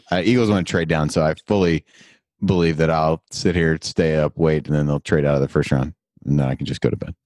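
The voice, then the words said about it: Rough, unwell-sounding voice. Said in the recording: “I sound terrible... now I sounded really bad this morning”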